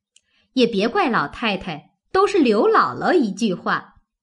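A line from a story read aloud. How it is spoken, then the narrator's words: Laughing. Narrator (Chinese): 探春笑道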